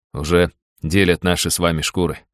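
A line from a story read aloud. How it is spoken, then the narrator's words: Smirking. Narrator (Russian): хмыкнул я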